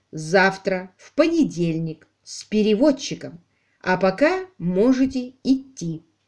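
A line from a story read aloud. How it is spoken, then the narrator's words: Slow, clear speech. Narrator (Russian): Алик произнес медленно и отчетливо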